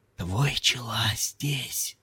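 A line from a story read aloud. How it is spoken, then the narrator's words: Whispering novice. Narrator (Russian): послушник прошептал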